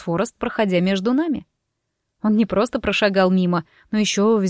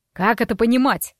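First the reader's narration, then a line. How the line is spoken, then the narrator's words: Icy. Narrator (Russian): ледяным тоном поинтересовался отец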